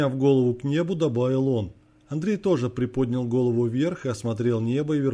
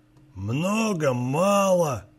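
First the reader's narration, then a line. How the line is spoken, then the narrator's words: Displeased growl, old man. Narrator (Russian): недовольно прорычал дед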